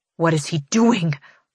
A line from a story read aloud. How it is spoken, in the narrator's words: I snarl to no one